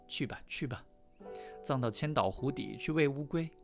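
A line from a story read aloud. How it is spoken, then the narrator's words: Smug laughing. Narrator (Chinese): 爸爸就得意的笑说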